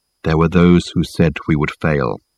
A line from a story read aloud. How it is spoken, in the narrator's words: continued Michael, in his low tone that carried clearly under the boisterous noise that filled the carriage